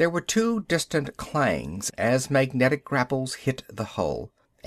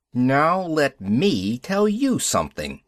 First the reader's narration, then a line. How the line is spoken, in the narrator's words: I snapped into the mic